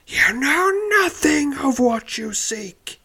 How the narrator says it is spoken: cries angrily

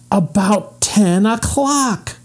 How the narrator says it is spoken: cried Jesse

